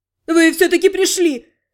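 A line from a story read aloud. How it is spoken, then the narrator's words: Relieved exclamation. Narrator (Russian): с облегчением воскликнул Арсин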